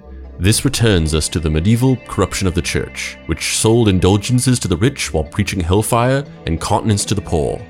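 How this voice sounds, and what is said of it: Attempted posh British accent. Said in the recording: “I don't think I can do a posh British accent.”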